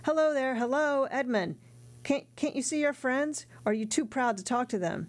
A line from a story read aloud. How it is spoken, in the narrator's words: Caderousse, half standing with his fist on the table, was still shouting